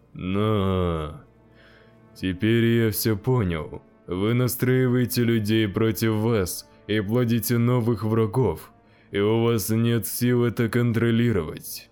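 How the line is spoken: Sad. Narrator (Russian): печально сообщил мужчина

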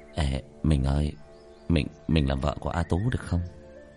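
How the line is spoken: Whisper. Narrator (Vietnamese): A Tú thì thào

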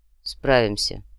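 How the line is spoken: Calm reply. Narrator (Russian): спокойно отозвался третий

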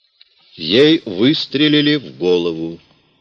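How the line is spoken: Rough. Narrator (Russian): грубо сказал Вернон

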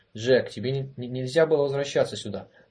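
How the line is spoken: Exclamation, unsteady. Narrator (Russian): воскликнул Голович, неуверенно поднимаясь

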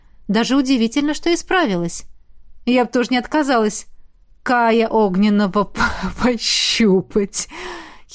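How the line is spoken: Giggled. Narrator (Russian): Хихикнула

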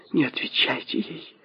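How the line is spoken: Hasty whisper. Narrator (Russian): поспешно прошептала миссис Макфейл

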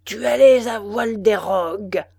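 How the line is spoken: Thunderous voice. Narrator (French): répondit l'autre d'une voix de tonnerre

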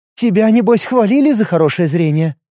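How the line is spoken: Quiet sigh, then spoken. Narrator (Russian): Ид незаметно вздохнул и вслух сказал

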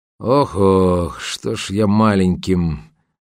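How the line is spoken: Grumbling, cut off. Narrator (Russian): проворчал Кречет, но не закончил свое любимое присловие

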